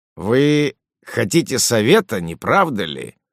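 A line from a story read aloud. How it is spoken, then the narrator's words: Gruff voice. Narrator (Russian): сказал он, наконец, грубым голосом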